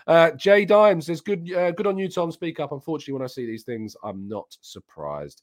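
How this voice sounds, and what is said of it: Voice strained and starting to go. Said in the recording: “I can feel my voice is starting to go. You probably even sensed it. It's being a bit strange this morning.”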